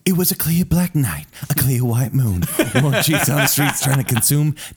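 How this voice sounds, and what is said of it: Smooth public-radio voice rapping. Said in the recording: “This is my NPR voice trying to rap.”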